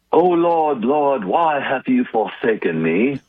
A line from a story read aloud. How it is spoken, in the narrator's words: not really in all that much pain, and with a Shakespearean accent, he's saying